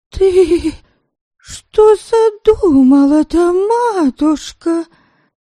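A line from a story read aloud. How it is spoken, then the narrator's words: Trembling question. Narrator (Russian): Дрожащим голосом спросила Молчана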